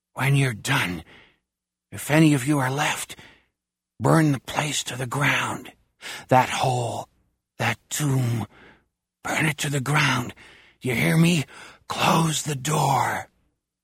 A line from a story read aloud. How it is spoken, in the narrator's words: Mouse whispers